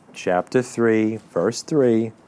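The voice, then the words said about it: Slower, deliberate speech. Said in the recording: “My mind is like running 10 steps ahead of my mouth. ... Let me say it slower.”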